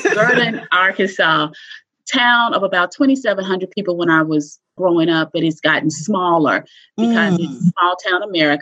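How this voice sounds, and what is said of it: Southern American accent. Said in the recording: “with the Southern accent, people wonder, now, what is she saying?”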